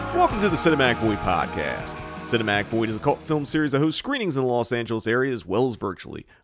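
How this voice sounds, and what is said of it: Polished podcast host announcer voice. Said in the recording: “you can't use your podcast voice when I'm testing the volume ... Now you're talking to the mic like a person?”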